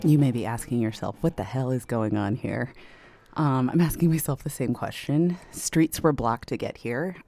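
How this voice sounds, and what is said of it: Out of breath, panting speech. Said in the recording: “Sorry, I'm out of breath. I had to run”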